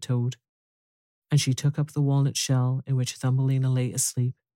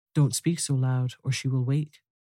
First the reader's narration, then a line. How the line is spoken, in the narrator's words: said the toad